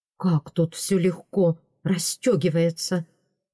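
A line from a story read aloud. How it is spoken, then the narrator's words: Muttered. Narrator (Russian): пробормотал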